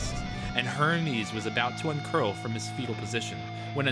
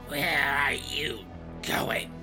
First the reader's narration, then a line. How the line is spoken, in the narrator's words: He growled